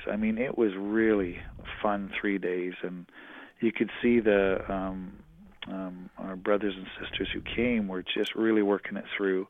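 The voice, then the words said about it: Strained, fading hoarse voice. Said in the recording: “I'm losing my voice a bit, all the talking I've been doing”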